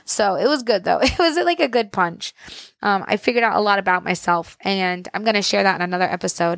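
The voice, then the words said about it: Worn-out voice. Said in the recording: “my voice sounds like that, because I've been talking for an entire weekend, but like also talking really, really loudly over music and over giant crowds of women”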